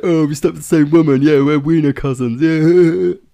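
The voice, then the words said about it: Mock stereotypical straight guy voice. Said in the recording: “That was my impression of a straight guy”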